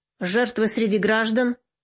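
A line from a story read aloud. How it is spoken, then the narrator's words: Gloomy question. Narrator (Russian): мрачно спросил Троян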